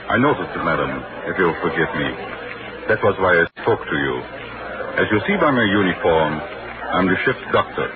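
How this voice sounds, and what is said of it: Austrian accent, not British. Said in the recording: “But you don't sound British. ... No, I'm an Austrian, madam.”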